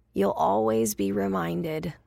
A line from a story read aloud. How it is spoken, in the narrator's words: she said in her hoarse, heroic voice